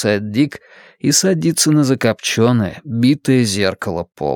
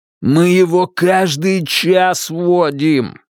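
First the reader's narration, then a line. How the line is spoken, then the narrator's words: Screaming. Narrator (Russian): вопит Анатоль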